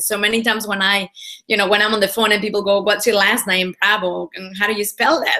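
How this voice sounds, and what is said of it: Mixed Spanish accent. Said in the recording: “a Spanish accent ... I have an accent, uh, which is a little bit mixed now, and it's hard to guess, there's certain letters that I have difficulty pronouncing ... in Spanish, a B and a V sound exactly the same”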